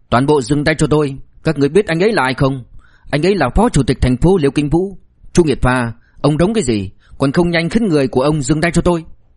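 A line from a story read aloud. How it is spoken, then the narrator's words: Loud sharp shout. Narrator (Vietnamese): Ngụy Tuấn Chí lập tức lớn tiếng quát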